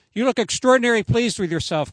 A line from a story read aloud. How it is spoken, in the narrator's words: Corey said